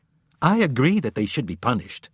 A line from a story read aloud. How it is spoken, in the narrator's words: Jones said quickly before anyone else could speak